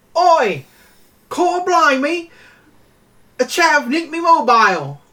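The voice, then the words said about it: Bad put-on British accent. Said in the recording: “my British impression? ... I don't think anyone would. ... I don't think there's a person with ears who would like that.”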